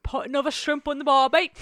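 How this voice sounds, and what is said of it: Put-on Australian accent, very loud. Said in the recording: “That's my Australian accent. ... Just very loud.”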